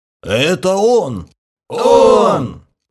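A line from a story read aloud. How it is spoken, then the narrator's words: Crowd exhaling in unison. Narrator (Russian): Слаженно выдохнула толпа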